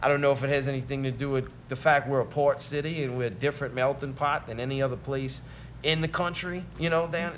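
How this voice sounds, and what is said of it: New Orleans accent, New York-like. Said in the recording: “you're either from New York or New Orleans ... I got a good friend from New Jersey. That's who you sound like. ... that's our accent.”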